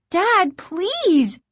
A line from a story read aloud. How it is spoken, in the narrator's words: Margaret cried